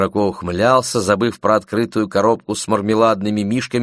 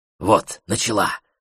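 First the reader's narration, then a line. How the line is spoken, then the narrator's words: Whisper. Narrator (Russian): зашептал Барри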